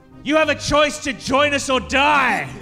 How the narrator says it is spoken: I yell at Davin

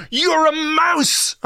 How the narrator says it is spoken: I screamed at him

